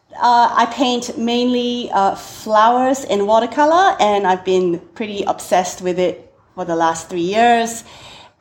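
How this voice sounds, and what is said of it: Singaporean English accent. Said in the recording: “I'm originally from Singapore, thus the strange accent.”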